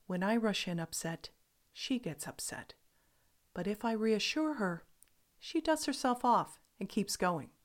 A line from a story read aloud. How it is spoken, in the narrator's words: My friend calmly said